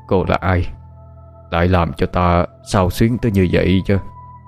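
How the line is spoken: Old man's sudden mutter. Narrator (Vietnamese): lão lẩm bẩm

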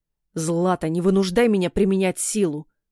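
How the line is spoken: Growling. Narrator (Russian): прорычал Илья

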